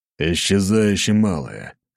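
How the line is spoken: Growled through gritted teeth. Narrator (Russian): скрипнув зубами, рыкнул ответ Николай

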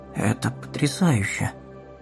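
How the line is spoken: Joyful, bewildered announcement. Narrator (Russian): Радостным и растерянным тоном объявил он, словно сообщая неожиданную новость, которой она не ожидала услышать

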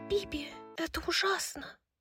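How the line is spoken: Whispered lament. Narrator (Russian): Шепотом причитала Лихаба

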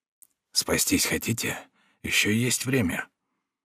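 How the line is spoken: Whispered in the ear. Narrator (Russian): Один из палачей шепнул ему на ухо

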